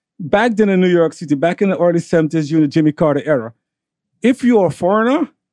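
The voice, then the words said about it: Foreign accent. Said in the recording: “I have an accent, as you can tell”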